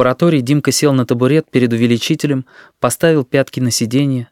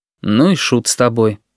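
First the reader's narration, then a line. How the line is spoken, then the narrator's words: Muttering. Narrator (Russian): буркнул Сережа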